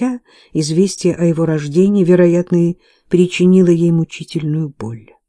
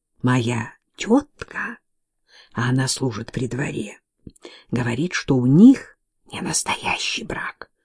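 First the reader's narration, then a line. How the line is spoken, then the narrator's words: Whisper. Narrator (Russian): раздался шепот Джоан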